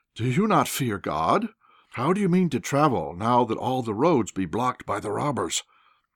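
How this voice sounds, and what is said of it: Tremulous old man's voice. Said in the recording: “in a tremulous voice”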